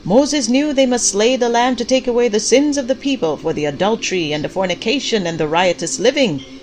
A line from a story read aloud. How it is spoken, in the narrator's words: Pastor Clyde shouted